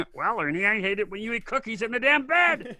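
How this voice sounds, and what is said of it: Bert from Sesame Street voice. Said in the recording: “doing the voice of Bert from Sesame Street”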